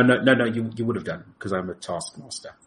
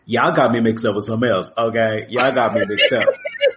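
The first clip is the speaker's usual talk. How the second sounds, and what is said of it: African American accent twinge. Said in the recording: “the African American twinge of my accent”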